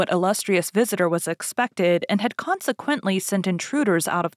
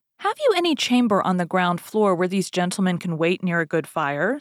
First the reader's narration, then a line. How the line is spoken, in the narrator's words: said the cardinal